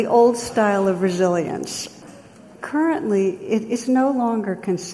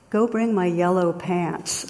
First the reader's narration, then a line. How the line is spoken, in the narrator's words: The captain calmly replies